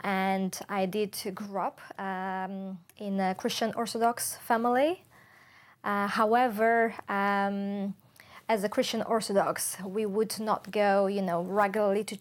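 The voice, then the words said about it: Non-Welsh foreign accent. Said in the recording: “we can hear your accent, so we know you're not Welsh”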